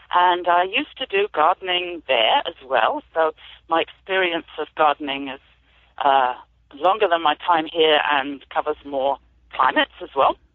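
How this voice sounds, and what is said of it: British accent. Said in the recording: “I'm an immigrant farmer, as you might be able to tell from my accent. I've moved here about 27 years ago from the UK.”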